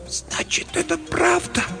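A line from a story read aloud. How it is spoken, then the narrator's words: Whisper. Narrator (Russian): прошептала она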